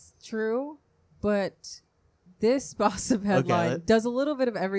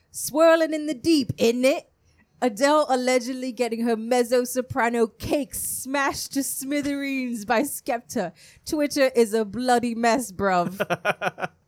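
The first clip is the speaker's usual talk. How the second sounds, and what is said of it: Put-on English accent. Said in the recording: “I'm going to read it in my best English accent.”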